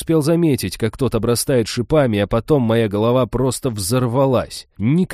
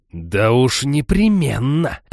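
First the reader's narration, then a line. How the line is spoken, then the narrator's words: Growl. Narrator (Russian): прорычала жрица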